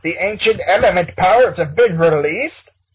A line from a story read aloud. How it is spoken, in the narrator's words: Acrodono shouted